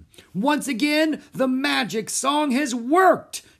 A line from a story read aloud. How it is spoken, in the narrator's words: she shouted